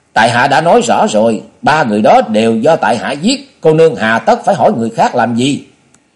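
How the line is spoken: Sudden angry outburst. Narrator (Vietnamese): Hoàng Phủ Tinh đột nhiên nổi giận, bật la lên

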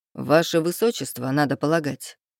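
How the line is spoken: Amused snort. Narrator (Russian): хмыкнул Рейв

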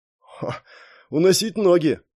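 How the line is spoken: Snort. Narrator (Russian): хмыкнул

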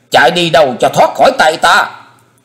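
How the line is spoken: Shrieking. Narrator (Vietnamese): Kim Hoa Điển Mẫu rít lên

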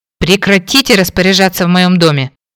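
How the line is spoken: Growl. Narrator (Russian): Рыкнула

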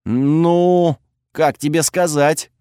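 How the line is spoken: Forced, strained words. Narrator (Russian): выдавил я

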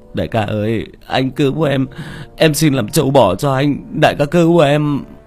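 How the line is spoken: Whimpering plea. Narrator (Vietnamese): Nó mếu máo

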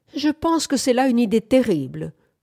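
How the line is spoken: Exclaimed. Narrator (French): s'écria Bamford

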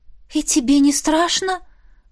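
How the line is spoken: Breathy exhale. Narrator (Russian): выдохнула

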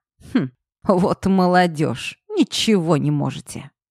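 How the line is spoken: Old man's scornful snort. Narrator (Russian): фыркнул дед

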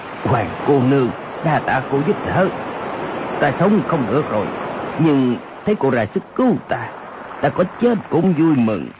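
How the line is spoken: Lowered voice. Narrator (Vietnamese): Âu Dương Khắc hạ giọng nói

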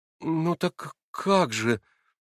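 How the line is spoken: Naive, sad. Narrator (Russian): наивно произнес Алеша, печально

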